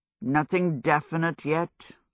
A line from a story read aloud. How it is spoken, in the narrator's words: Hal said gloomily